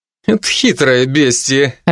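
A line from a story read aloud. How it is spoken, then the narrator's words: Laughing. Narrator (Russian): рассмеялся Алви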